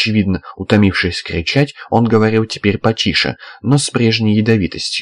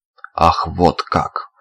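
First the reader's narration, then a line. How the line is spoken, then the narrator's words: Sarcastic snort. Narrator (Russian): саркастически фыркнул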